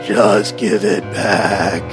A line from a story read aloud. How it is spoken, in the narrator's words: this thing speaks in a gurgling voice saying